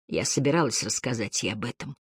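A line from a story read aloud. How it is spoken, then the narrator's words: Muffled whisper through fingers. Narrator (Russian): прошептала она сквозь прижатый ко рту пальцы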